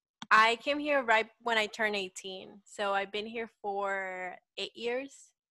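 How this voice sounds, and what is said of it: Salvadoran accent in English. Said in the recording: “You have an accent. ... I am originally from El Salvador.”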